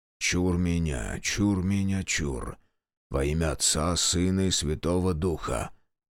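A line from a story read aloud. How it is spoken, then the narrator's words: Whisper. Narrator (Russian): прошептал Демьян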